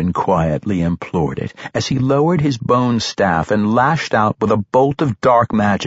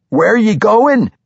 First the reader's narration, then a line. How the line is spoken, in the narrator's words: Amber cried out